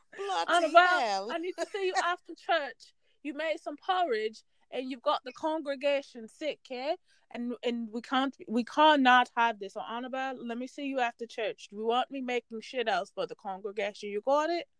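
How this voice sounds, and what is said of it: Put-on accent drifting toward British. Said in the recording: “Not really sure what this accent is ... this accent is turning really fast. I don't know where we at now. ... You went to London.”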